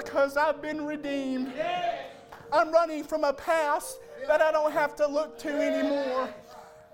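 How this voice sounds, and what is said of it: Shouting preacher delivery. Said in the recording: “I'm shouting and I want to live for the Lord. I'm shouting”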